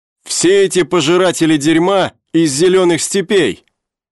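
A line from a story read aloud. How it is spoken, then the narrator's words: Shout. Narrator (Russian): крикнул он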